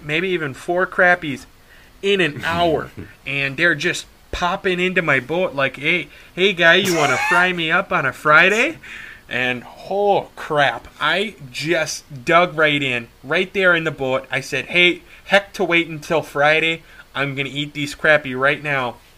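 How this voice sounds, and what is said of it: Put-on Upper Wisconsin accent. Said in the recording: “that's the old Uper Wisconsin accent right there for you, folks”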